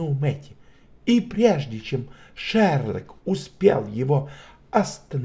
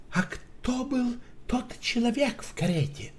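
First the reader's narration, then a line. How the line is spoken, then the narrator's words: Trembling question. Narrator (Russian): дрожащим голосом спросил Шерлок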